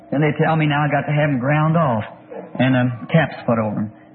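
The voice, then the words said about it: Slight lisp with air escaping. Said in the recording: “I'm whispering to myself this morning across that place out of my tooth in front there ... the wind kind of push out, you know what I mean, out across your lips, and it makes you kind of lisp like”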